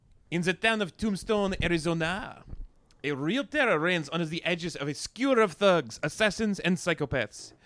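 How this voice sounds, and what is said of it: Put-on French accent. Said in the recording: “can you start over but in a French accent?”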